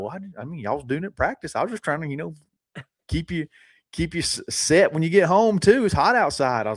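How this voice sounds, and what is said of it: Exaggerated country accent imitating dad. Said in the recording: “he uses his voice ... That's like my stock country accent ... your dad is country ... you go a little extreme on it”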